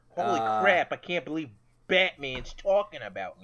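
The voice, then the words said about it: Put-on Boston accent. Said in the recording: “in a Boston accent”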